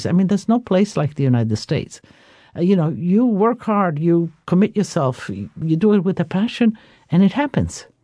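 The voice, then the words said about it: Speaks with a noticeable foreign accent. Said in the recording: “enjoying your wonderful accent”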